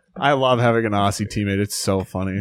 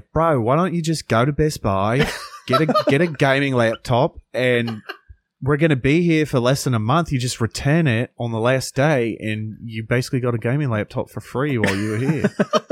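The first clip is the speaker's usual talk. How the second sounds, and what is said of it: Good put-on Australian accent. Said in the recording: “really good impression ... The accent ... Was great ... Aussie accent”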